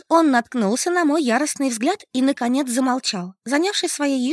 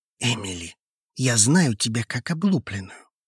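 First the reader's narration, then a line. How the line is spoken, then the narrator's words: Quiet, insistent. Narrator (Russian): тихо и с каким-то непонятным мне напором произнес он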